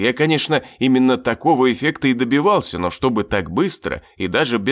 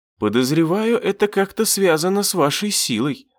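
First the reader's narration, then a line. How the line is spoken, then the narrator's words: Thoughtful sigh. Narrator (Russian): задумчиво вздохнула Мина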